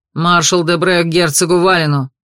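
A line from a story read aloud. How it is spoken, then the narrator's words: Barked. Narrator (Russian): рявкнул Серж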